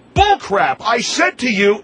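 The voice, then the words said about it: Raised, angry voice. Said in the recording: “You're raising your voice again”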